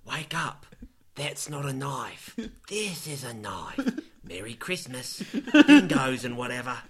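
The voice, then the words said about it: Put-on Australian accent. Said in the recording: “If he gets to keep his Australian accent ... does Hugh Jackman keep his Australian accent?”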